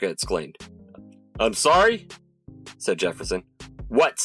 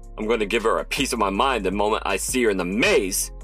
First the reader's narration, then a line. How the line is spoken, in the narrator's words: Jefferson growled